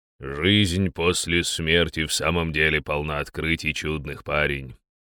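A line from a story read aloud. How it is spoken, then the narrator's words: Calm reply. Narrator (Russian): спокойно ответил Дир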